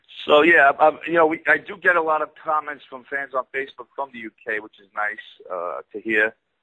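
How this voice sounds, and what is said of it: Brooklyn New York accent. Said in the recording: “especially me with my Brooklyn accent”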